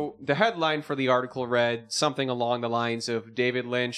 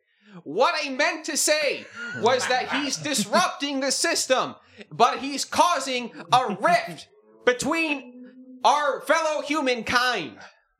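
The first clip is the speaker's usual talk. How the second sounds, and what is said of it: Imitates another person's voice. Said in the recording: “That's my Lynch impression. ... That's pretty good.”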